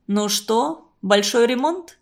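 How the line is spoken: Plain. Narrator (Russian): спросил Константин Семенович

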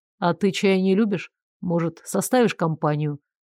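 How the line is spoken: Said quietly. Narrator (Russian): тихонько произнес

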